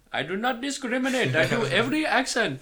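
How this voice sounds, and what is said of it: Put-on Indian accent. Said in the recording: “Do an Indian one. ... I do an okay Indian one. ... That's very good. ... I did the Indian accent justice ... Pretty solid.”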